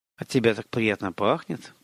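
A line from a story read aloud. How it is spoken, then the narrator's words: Murmured. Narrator (Russian): пробормотал он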